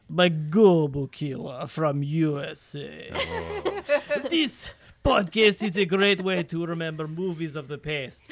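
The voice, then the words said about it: Evil Russian dancer character accent. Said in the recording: “evil Russian dancer”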